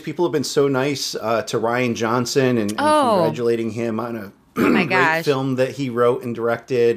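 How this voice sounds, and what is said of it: Sarcastic tone. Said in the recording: “we're being sarcastic.”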